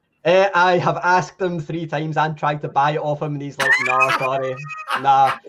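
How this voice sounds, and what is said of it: Scottish accent. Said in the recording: “I don't write in a Scottish accent”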